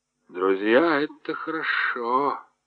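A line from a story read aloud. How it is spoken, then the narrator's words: Muttered. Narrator (Russian): пробормотал Кеттере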